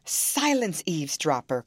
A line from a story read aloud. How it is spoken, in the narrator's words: cried Catherine